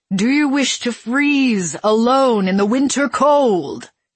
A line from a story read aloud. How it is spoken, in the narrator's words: he asked, raising his voice as the surrounding swarm hissed and jeered at her